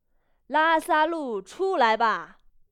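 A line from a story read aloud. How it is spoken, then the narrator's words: Loud calling out. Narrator (Chinese): 耶稣 就大声呼叫说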